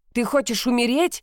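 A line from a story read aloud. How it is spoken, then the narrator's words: Shouted. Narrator (Russian): закричал Раш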